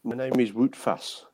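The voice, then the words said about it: Weak put-on foreign accent. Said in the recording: “But with a better accent than that.”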